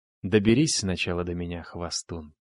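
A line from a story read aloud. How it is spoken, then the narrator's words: Calm reply. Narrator (Russian): спокойно ответил я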